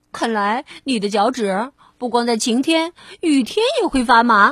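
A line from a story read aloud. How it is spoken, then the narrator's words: Sarcastic. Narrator (Chinese): 蹦蹦讽刺跳跳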